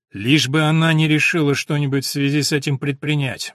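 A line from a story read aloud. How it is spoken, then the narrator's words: Gloomy reply. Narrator (Russian): мрачно ответил доктор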